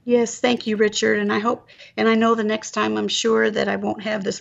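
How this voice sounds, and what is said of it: Raspy, hoarse voice. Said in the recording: “raspy voice from laryngitis. ... thank you for being patient with me with my voice today.”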